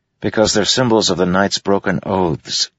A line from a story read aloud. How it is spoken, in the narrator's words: Kaladin said